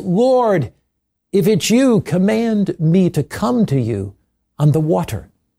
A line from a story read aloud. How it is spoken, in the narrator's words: Amid the storm and the raging waves, Peter cried out to Jesus